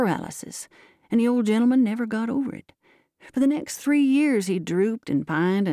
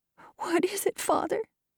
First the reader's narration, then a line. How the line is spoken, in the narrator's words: asked his daughter Sari, sobbing